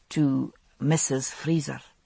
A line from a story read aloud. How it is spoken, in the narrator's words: he said softly